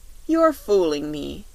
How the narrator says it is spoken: said Dorothy with a laugh

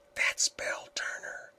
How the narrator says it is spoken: whispered Helen

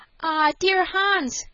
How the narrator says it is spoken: cried Alice

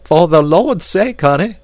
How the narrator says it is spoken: cried Esmeralda

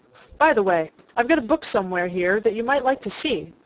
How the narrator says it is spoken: said the oldest boy of the party

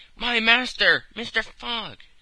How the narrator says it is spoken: cried he

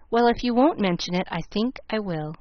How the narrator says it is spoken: rather liking the joke of the thing, she laughed back, saying

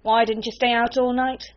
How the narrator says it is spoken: she snapped

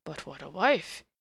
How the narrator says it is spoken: he sighed

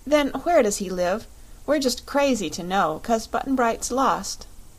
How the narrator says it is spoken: she said

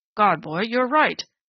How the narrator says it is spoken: Strawn exclaimed, and his heavy old face was very pale

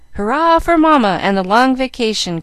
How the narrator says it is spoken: cried Jack

